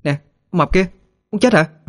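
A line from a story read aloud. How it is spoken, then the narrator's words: Very loud shout. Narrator (Vietnamese): Hết đường khuyên nhủ, Thư liền cố hét thật lớn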